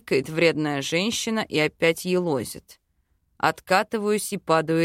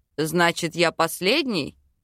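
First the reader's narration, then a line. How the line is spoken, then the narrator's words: Indignant. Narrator (Russian): Возмущенно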